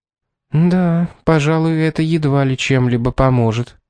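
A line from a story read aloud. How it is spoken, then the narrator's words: Sad agreement. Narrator (Russian): печально согласилась миссис Редли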